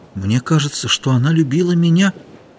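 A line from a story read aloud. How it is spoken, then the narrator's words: Quiet. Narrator (Russian): тихо сказал Ихтиандр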